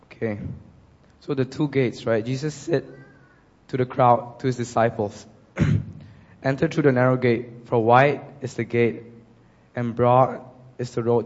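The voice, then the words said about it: Coarse, hoarse voice. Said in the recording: “my voice is a bit coarse today ... it's been sick a few days”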